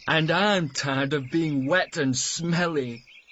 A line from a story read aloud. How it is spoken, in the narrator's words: laughed Matt